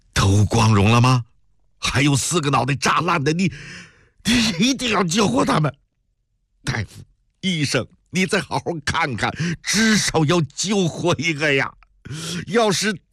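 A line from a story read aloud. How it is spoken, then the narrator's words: Anxious crying. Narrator (Chinese): 曹科长却急哭了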